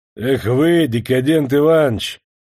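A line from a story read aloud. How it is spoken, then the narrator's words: Rude, dismissive. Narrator (Russian): грубо махнул на него рукой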